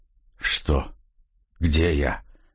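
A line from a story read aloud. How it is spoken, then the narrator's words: Weak whisper, just awakened. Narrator (Russian): прошептал очнувшийся полковник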